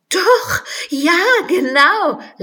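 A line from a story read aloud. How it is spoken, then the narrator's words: Laughing. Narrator (German): lachte Alice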